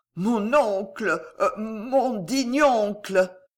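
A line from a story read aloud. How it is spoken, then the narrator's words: Stammered. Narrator (French): balbutia Gillot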